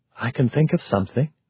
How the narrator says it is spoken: she said softly

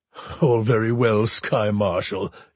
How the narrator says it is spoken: he rumbled

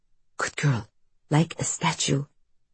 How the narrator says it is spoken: her mother whispers

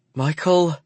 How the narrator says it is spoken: she cries

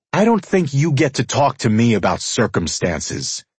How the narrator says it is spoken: I snapped

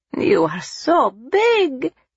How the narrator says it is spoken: his nonna exclaimed

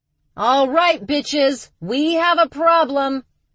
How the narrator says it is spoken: she yelled toward the kitchen

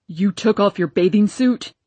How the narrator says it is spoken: roared Papa, his face so red he seemed ready to explode

